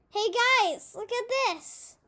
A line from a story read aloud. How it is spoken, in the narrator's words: He exclaimed, holding up his treasure with pride